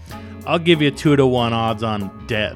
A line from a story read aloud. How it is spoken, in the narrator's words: Marco said grimly